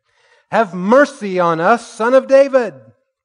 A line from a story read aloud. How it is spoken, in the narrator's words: two blind men followed him, shouting